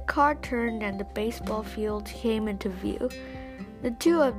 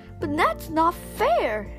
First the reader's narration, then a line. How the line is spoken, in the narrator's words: Anna cried